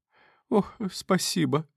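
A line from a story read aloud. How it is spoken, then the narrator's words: Sobbing. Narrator (Russian): всхлипнула Безобразова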